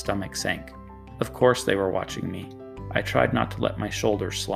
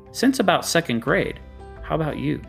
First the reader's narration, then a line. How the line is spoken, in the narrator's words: said a little more brightly